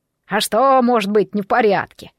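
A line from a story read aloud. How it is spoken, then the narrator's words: Surprised exclamation. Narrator (Russian): удивленно воскликнул Белояр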